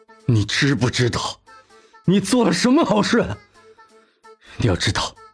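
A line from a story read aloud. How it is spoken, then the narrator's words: Through gritted teeth. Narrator (Chinese): 蓝叶咬牙道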